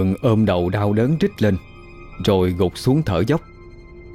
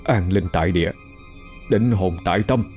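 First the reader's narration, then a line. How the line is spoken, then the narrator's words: Muttered incantation. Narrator (Vietnamese): Thịnh nhắm mắt lẩm bẩm câu chú thuật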